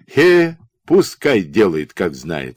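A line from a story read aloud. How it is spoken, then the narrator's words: Plain. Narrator (Russian): сказал он жене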